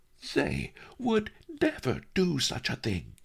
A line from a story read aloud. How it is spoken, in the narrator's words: Lotus Cloud said indignantly